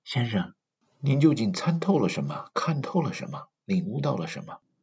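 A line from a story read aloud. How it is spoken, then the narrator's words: Sighing. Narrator (Chinese): 释迦牟尼叹了一口气说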